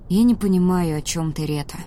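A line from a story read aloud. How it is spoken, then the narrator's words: Tired. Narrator (Russian): сказал Ди устало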